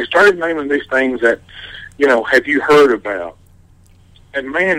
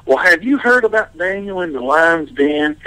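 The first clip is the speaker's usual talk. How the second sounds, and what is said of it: Imitated strong Texan accent. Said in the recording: “Joel Osteen's got this huge, I guess it's a Texan accent.”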